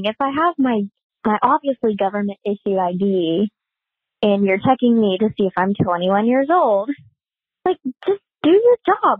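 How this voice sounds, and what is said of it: Cute, sweet-sounding accent. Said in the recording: “you have the cutest little accent. ... She sounds just, like, so sweet.”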